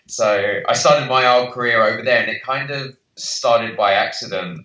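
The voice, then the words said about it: British accent. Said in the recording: “clearly by my accent, I'm from the UK.”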